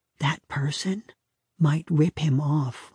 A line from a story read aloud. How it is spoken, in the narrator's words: whispered